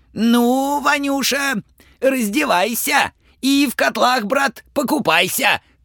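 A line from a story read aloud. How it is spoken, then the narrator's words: King shouting. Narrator (Russian): царь Ивану закричал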